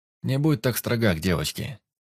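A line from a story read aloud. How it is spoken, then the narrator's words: Snort. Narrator (Russian): хмыкнул Тер Велден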